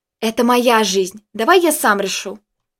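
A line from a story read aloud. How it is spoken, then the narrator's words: Rude. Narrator (Russian): грубо ответил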